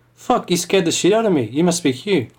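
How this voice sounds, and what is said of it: Genial New Zealand accent. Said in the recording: “a genial Kiwi voice ... It was a good impression”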